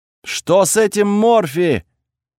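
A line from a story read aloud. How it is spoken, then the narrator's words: Panicked shout from crowd. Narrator (Russian): панически закричали из толпы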